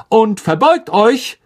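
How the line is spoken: Called out. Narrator (German): rief Lockhart

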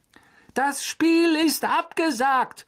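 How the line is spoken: Shouting through megaphone. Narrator (German): rief durch das Megafon hinüber zu den vollbesetzten Rängen

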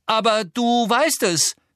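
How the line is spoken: Calling out. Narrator (German): rief Harry

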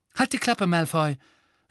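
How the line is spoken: Sharp. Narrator (German): sagte Hermine scharf

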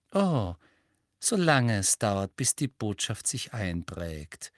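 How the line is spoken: Sugary sweet voice. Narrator (German): sagte Umbridge mit ihrer süßlichen Stimme

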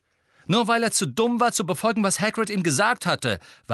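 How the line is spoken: Angry interjection. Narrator (German): warf Harry zornig ein

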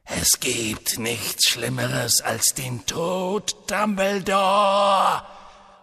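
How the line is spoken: Angry hiss. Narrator (German): fauchte Voldemort

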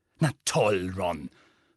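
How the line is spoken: Hissed. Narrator (German): fauchte Hermine

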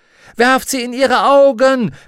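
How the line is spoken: Shouted. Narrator (German): brüllte sie

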